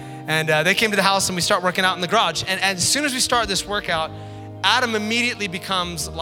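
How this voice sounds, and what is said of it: Usual voice. Nothing is said of it.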